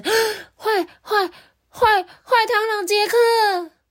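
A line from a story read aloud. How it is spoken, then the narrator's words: Sudden shout. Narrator (Chinese): 突然听到他大叫一声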